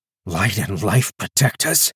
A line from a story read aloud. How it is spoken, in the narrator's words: Calder muttered to himself as the wave loomed over them